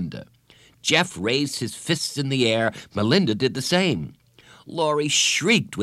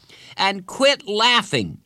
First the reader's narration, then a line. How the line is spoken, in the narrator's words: Jeff shouted